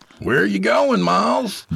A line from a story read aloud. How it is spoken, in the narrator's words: Jacob shouted after him